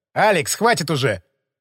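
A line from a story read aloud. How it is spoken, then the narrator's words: Sharp rebuke. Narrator (Russian): Прикрикнул на связиста Лымарь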